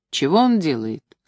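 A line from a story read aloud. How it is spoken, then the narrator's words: Plain. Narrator (Russian): спросил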